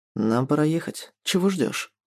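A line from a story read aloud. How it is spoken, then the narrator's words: Low voice after pause. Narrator (Russian): Низким голосом произносит после недолгого молчания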